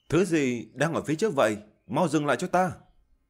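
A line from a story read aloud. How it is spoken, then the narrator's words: Hasty shout. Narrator (Vietnamese): Diệp Chi Thu vội vàng quát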